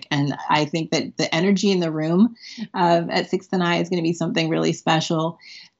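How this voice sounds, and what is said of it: Excited, enthusiastic voice. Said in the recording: “you can hear in my voice, I'm so excited”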